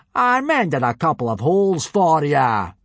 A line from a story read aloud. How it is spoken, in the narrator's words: boomed Gobber